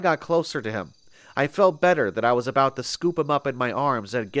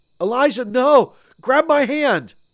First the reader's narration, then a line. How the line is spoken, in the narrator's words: screamed out